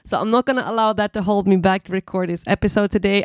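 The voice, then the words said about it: Congested, blocked-nose voice. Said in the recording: “I have a little bit of a cold today ... I hope you don't mind me having a little bit of a blocked nose, sounding a bit special today”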